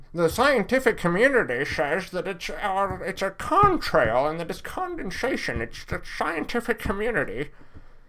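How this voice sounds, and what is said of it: Weak mocking impersonation voice. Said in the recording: “I'm going to have to come up with a better impersonation voice.”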